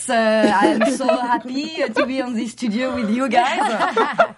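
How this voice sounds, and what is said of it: Put-on French accent. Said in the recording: “I love your accent... I've been practicing my French accent for years.”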